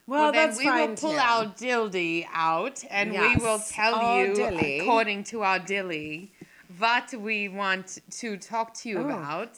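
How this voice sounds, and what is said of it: English accent shifting into Russian. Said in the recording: “That was good. That was an English accent into Russian.”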